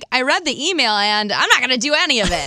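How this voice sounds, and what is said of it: Sassy imitation of another person's voice. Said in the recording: “You say it so sassy. ... That's a great Fred impersonation there.”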